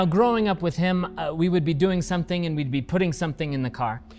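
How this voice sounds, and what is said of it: Usual voice. Nothing is said of it.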